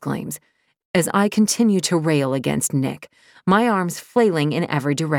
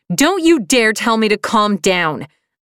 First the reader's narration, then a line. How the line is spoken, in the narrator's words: I scream